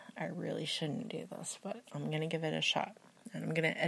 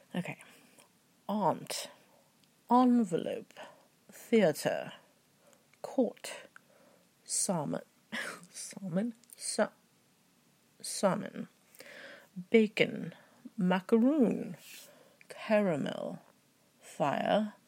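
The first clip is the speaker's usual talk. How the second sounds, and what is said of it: Attempted British accent. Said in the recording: “I'm going to try a British accent”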